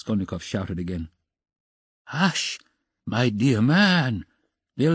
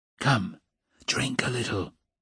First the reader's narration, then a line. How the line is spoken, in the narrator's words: he whispered